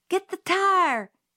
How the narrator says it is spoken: Jim hollered

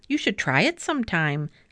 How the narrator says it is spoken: laughed the cat

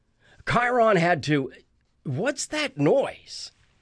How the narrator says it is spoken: Luke yelled

